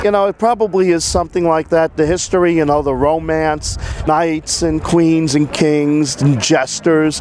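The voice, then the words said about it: New York accent. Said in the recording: “That is a New York accent you hear.”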